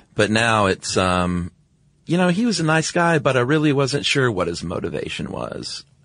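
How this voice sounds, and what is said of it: Gravelly vocal fry at sentence ends. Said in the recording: “gravelly tone on certain, like the ends of sentences usually ... That was a great impression ... it was dead on ... you were doing a different voice ... vocal fry”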